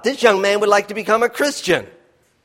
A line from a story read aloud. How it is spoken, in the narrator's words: the lady called out